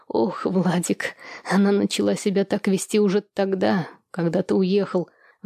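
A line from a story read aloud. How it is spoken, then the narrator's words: Sighing. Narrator (Russian): вздохнула Елизавета Аркадьевна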